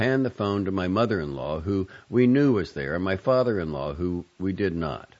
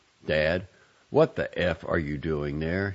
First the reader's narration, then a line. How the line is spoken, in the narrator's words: he said